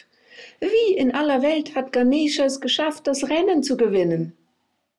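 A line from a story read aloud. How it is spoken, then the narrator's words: Calling out. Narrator (German): Er wandte sich zu seiner Mutter und rief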